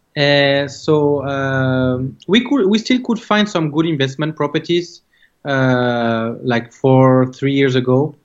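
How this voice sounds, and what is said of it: French accent in English. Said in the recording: “Coming from France, as you can tell from my accent”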